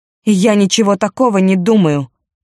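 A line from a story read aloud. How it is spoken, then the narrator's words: Angry. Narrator (Russian): сердито сказала она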